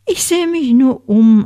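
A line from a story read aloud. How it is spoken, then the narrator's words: Plain. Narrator (German): antwortete Hamish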